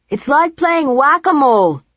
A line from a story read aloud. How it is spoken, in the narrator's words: Luna yelled, to be heard over the noise of the crowd